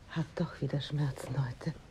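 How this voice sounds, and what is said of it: Whispering. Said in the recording (German): “flüsterst”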